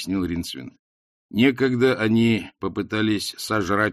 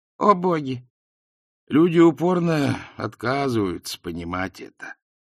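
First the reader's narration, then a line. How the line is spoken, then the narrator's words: Tired speech. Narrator (Russian): устало проговорил Ринсвинд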